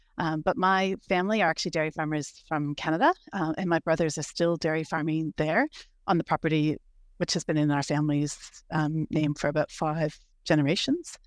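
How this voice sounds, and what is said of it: Non-Australian accent. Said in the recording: “as my accent might suggest, I wasn't born in Australia.”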